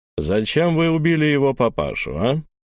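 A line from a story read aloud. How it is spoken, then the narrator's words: Deep, muffled, distant voice. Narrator (Russian): пробасил где-то в отдалении глухой голос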